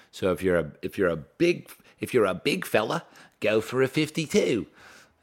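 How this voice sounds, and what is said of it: Bad put-on Australian accent. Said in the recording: “That's just the worst Australian accent.”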